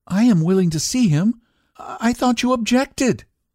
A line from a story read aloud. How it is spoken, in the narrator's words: faltered